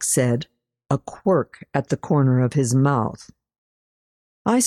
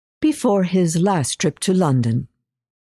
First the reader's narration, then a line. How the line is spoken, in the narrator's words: said, careful to keep my voice light